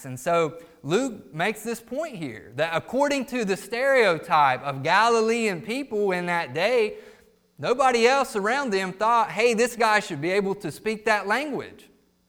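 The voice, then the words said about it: Accent like the Duck Dynasty guy. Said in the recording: “what is your accent? Where exactly are you from? You're not from New York, are you? ... like we've got the Duck Dynasty guy in here or something, just by the way that he talks”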